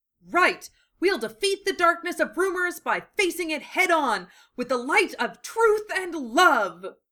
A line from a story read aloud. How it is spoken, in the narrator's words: Lee said, with a firm and enthusiastic pose